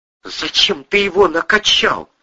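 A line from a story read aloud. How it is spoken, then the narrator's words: Icy. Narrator (Russian): ледяным тоном осведомилась Кристина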